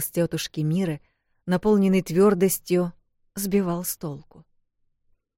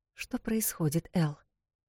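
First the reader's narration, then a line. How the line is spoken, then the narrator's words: Whispered question. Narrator (Russian): шепотом спросила она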